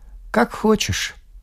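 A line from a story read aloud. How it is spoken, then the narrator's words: Dry. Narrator (Russian): сказал сухо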